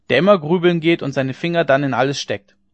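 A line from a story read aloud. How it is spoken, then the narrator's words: Called out. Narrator (German): rief einer von den Gestleuten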